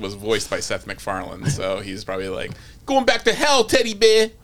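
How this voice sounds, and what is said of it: Boston accent impression of an actor. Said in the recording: “Is that a Boston accent? ... Yeah, that was pretty close. ... I don't think that's a Seth MacFarlane accent at all, though. ... That was me doing Mark Wahlberg.”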